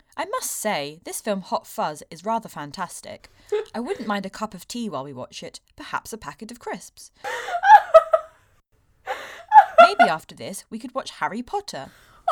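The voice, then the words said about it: Put-on British accent. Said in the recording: “I can't remember how to do a British accent now.”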